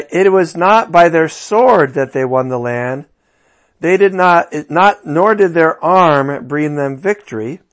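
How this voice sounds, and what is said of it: Tired, slightly slurred, slow speech. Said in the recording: “I'm so tired, I'm slurring my words a little bit. I just have to talk slowly”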